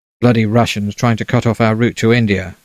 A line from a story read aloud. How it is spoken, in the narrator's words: Balfour snapped